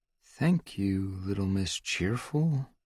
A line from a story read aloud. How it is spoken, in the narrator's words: Marco muttered under his breath